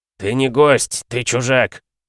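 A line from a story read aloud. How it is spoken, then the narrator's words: Barked from the side. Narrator (Russian): рявкнули откуда-то сбоку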